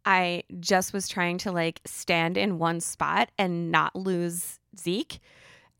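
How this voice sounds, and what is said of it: Raspier voice than usual. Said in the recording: “my voice is a little raspier than usual... finally, she's not so like squeaky”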